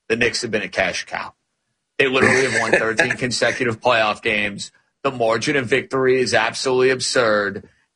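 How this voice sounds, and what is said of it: New York accent. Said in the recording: “You know I'm a New York guy. You could tell by the dialect I'm a New York guy.”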